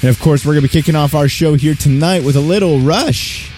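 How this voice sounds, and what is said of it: Voice cracks on a word. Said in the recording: “My voice cracked when I said Rush there.”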